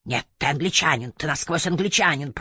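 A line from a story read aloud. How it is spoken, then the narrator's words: Growled with a malicious smile. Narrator (Russian): прорычал он со злобной улыбкой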